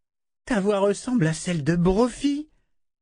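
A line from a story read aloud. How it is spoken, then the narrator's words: Exclaimed. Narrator (French): s'écria-t-elle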